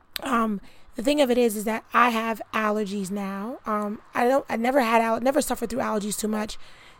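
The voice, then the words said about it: Hoarse, strained lost voice. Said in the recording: “as you can hear, my voice is terrible ... the way my voice sounds ... the allergies caused me to have a cough ... it made me lose my voice”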